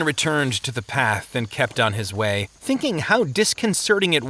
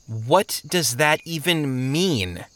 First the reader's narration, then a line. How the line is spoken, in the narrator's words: Christian asked